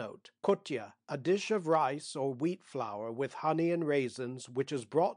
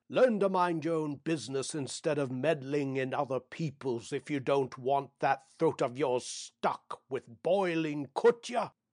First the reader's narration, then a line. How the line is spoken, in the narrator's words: thundered in reply